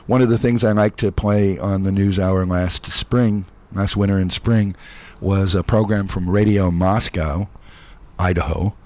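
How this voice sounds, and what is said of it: Hoarse, worn-out voice. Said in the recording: “I guess you can hear my voice is kind of shot.”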